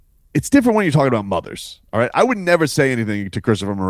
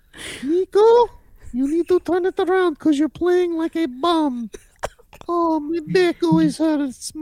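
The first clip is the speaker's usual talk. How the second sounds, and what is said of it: Imitated voice of a player's mother. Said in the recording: “here's my impression of your mother”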